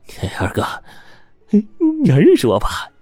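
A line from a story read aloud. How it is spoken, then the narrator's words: Cheerful, giggling. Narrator (Chinese): 小兔子……笑嘻嘻的说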